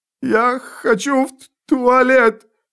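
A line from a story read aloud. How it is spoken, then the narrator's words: Sudden whining. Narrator (Russian): неожиданно заскулил изгой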